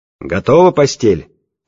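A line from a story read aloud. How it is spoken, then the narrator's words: Guttural shout. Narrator (Russian): гортанно крикнул он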